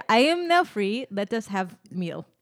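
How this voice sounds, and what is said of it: Weak put-on Russian accent. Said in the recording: “I made him Borat, but I don't do a great Russian accent.”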